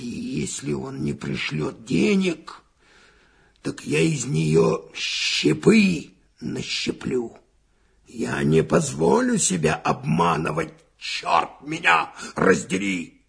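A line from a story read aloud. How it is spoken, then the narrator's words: Angry muttering. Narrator (Russian): Финогенов бормотал, сжимая кулаки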